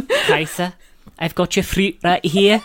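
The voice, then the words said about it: Vaguely Scottish Lilia impression. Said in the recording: “a vaguely Scottish accent ... his Lilia impression”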